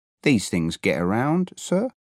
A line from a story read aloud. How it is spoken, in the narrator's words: I said